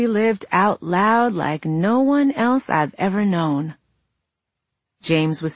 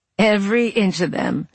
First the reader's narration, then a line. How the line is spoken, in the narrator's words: Joe laughed